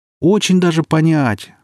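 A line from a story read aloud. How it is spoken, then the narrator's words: Joyful shout. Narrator (Russian): радостно закричал Сережка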